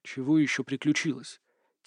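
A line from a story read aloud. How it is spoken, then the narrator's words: Quiet whisper. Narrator (Russian): тихо, шепотом проговорил Олег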